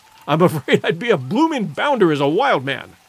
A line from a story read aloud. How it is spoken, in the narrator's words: laughed Clayton, ruefully